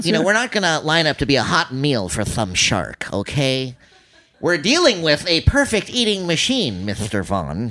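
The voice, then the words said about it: Imitated actor's voice with a lisp. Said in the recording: “Richard Dreyfuss with a lisp, that voice.”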